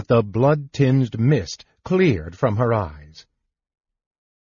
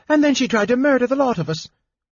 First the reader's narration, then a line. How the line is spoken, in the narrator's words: cried the baker